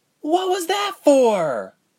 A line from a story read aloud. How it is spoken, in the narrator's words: Ilse cried out